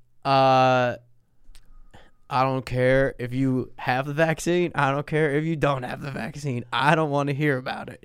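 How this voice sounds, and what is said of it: Put-on Southern American accent. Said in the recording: “I was just doing a southern accent ... Or whatever the fuck that was”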